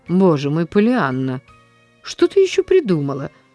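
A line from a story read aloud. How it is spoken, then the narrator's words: Sighing. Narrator (Russian): вздохнула мисс Полли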